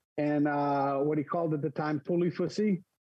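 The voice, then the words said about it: Put-on French accent. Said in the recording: “oh, you say it well. You had your French accent.”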